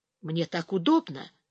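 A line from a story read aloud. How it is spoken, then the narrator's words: Whisper. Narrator (Russian): тоже прошептал Ярослав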